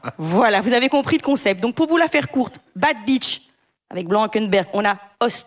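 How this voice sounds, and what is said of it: Usual voice. Nothing is said of it.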